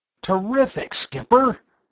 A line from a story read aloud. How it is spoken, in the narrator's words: Bud exclaimed